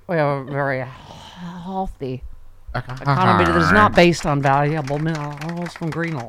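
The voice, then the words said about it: Drunken slurred impression of another person. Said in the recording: “Drunky McDrunkerson from Drumtown ... My Larry Kudlow impression. ... It's your Foster Brooks doing Larry Kudlow.”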